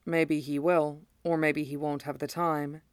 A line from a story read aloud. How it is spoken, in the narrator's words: Rose said quietly